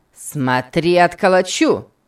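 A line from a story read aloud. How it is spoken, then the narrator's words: Shout. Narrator (Russian): крикнул Сэмбо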